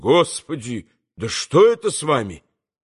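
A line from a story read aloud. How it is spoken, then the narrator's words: Shocked cry. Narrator (Russian): Тот, увидев его и его запачканное кровью лицо, так и вскрикнул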